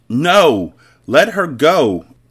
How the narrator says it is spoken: Anissa screamed as she fought him

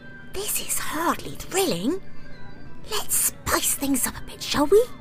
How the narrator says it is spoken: he whispered

